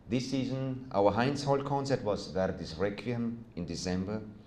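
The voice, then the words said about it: Austrian accent. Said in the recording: “you may have noticed from my accent that I'm not originally from this region. I was born and still live in Austria.”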